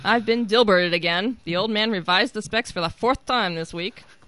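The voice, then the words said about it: Comic strip character voice. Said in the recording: “my Dilbert impersonation”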